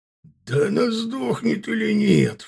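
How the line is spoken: Roaring. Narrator (Russian): взревел Аркар

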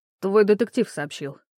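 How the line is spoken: Knowing snort. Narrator (Russian): фыркнул Кром, давая понять, что все знает

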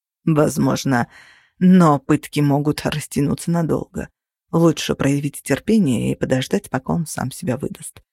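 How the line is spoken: Calculating, threatening. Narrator (Russian): расчетливо и угрожающим тоном ответил Кости

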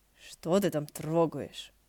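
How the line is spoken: Grumbled. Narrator (Russian): буркнул Хэсюань

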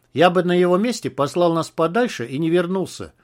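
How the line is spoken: Plain. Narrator (Russian): сказал Жур

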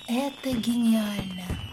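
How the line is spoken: Whisper. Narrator (Russian): прошептала я подрывнику

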